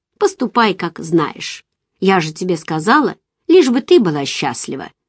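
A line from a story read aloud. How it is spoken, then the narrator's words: Confident tone. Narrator (Russian): она уверенным тоном произнесла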